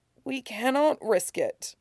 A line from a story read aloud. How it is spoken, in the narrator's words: he murmured regretfully